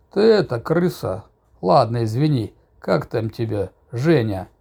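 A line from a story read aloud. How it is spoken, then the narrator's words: Unexpectedly calm, kind voice. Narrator (Russian): Неожиданно спокойно, по-доброму произнес вдруг суровый авторитет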